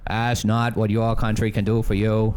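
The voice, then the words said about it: Bad Boston-accented politician impression. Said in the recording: “let's not attempt Boston accents ... That was just a bad Kennedy impersonation.”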